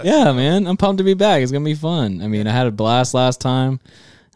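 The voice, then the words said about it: Smooth, polished radio voice. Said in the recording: “He got that radio voice”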